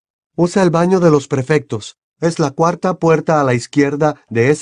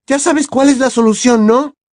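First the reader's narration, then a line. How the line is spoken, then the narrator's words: Shouted. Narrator (Spanish): gritó Hermione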